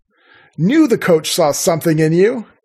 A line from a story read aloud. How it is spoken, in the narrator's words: Avery shouted